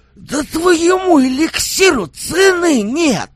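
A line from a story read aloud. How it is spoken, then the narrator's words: Drunken ecstatic exclamation. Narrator (Russian): В пьяном восторге воскликнул я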